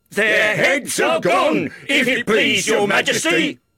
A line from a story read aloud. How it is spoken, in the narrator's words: the soldiers shouted in reply